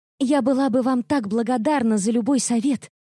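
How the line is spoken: Emotional exclamation, young woman. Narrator (Russian): с чувством воскликнула девушка

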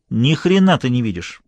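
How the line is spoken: Sharp. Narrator (Russian): резко сказала Лоретта

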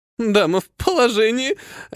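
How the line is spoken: Laughing. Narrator (Russian): рассмеялась

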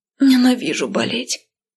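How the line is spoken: Hoarse rasp. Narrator (Russian): прохрипела

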